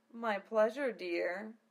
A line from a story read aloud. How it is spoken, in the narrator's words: She smiled, purring